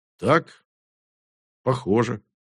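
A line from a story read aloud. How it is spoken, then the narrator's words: Gloomy. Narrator (Russian): мрачно сказал Моран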